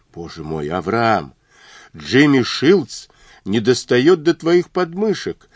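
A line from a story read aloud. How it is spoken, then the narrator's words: Frightened exclamation. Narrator (Russian): воскликнула напуганно Мэри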